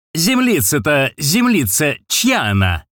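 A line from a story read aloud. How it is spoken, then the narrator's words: Shout. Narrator (Russian): кричал третий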